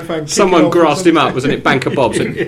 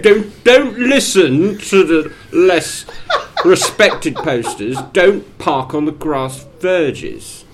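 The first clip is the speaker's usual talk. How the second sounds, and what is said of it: Imitates another person's voice. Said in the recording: “That's not a bad impression either.”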